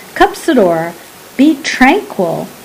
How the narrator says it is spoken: his brother said calmly

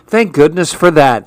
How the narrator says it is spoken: he sighed

